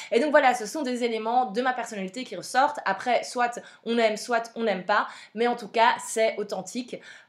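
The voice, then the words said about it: Belgian French accent. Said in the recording (French): “Vous entendez ma voix, vous entendez mon accent, clairement vous l'entendez ... je viens de Belgique”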